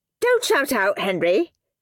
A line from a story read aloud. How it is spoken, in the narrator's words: snapped Miss Battleaxe